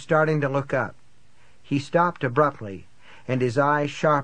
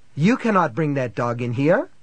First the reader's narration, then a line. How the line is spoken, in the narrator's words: he said sharply